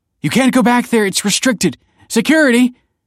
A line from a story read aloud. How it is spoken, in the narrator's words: cried Kelsey